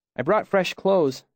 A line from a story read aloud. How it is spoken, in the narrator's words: Sim said cheerfully